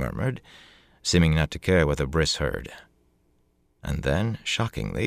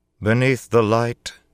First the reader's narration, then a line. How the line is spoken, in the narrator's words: she announced in a strong, clear voice